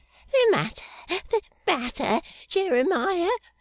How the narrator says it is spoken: gasped Mrs

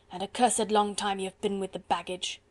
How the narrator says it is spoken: grunted the other surlily

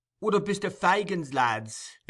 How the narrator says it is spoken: exclaimed Barney with a grin

